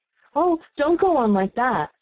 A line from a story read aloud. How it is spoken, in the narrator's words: cried the poor Queen in despair